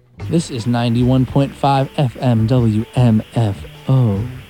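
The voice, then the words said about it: Put-on radio announcer voice. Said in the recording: “Is that a good radio voice? I'm trying to work on my radio voice.”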